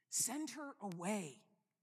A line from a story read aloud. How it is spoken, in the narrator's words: they say quite urgently